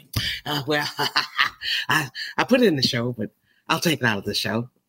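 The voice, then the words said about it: Imitates another person's voice. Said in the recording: “if I was to do an impression of Michael Collier”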